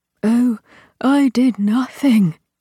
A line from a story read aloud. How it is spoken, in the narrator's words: he said breathlessly